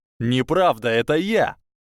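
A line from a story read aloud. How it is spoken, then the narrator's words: Overlapping shouts. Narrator (Russian): перебивающими друг друга криками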